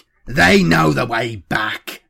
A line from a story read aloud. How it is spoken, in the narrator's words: Streck snapped